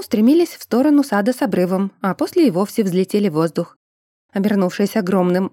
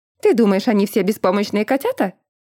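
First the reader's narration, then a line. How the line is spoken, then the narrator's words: Snorting, skeptical. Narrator (Russian): хмыкнула леди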